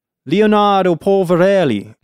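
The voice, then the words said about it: Put-on Italian accent. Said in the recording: “let me do my Italian voice. ... Pretty good. ... I need to practice that.”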